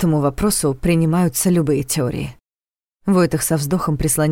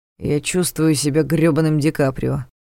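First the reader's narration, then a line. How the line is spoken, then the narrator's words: Grumbling. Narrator (Russian): проворчал Ваня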